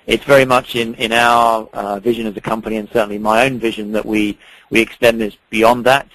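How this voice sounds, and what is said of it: British accent. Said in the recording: “As you can probably detect from my accent, I'm not from here originally. I am from the U.K.”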